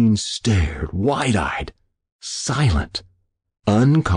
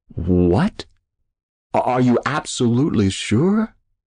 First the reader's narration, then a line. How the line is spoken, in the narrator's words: He finally stammered